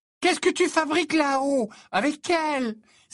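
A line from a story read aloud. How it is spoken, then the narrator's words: Exclaiming. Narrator (French): s'écria Lavande Brown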